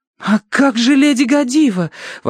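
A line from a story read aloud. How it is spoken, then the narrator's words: Desperate exclamation. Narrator (Russian): в отчаянии воскликнула Верити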